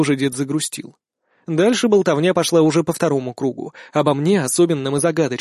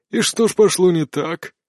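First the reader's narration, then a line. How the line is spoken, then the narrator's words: Heavy sigh. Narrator (Russian): Маг тяжело вздохнул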